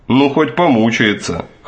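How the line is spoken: Scoffing snort. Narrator (Russian): хмыкнул Броуди

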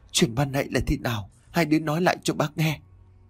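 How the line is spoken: Urging. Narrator (Vietnamese): bà Lan liền giục

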